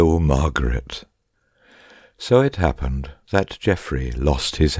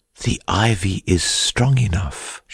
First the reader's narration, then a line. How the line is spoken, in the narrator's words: she had whispered